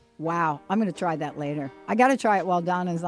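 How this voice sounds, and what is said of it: Usual voice. Nothing is said of it.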